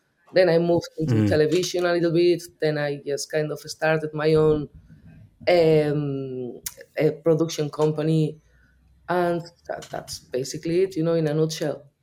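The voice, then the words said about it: Spanish Basque accent in English. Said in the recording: “That's not an Irish accent. ... I'm from the north of Spain. I'm a Basque. ... due to my accent,”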